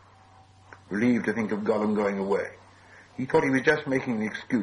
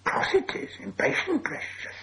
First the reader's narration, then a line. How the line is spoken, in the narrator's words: hissed Gollum